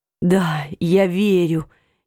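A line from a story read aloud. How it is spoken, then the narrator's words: Hoarse voice. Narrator (Russian): Его голос был хриплым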